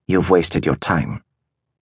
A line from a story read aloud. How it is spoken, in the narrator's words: she said in a soft voice